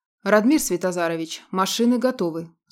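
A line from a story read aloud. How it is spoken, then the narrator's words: Dry, pointedly stern. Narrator (Russian): сухо и подчеркнуто строго произнес хищник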